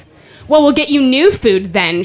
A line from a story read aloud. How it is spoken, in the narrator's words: she slurs